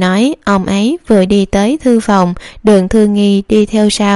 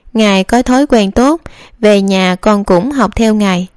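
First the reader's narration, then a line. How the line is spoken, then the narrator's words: Smiling. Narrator (Vietnamese): Đường Thư Nghi mỉm cười nói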